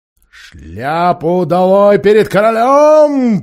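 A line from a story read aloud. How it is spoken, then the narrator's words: Booming. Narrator (Russian): прогремел лорд Берн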